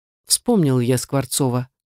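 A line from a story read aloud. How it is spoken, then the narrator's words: Calm. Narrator (Russian): спокойно произнес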